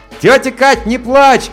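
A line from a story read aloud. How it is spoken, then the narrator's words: Shouted. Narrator (Russian): крикнул я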